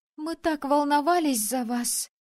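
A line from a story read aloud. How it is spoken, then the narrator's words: Sobbing exclamation. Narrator (Russian): всхлипывая, воскликнула Ерника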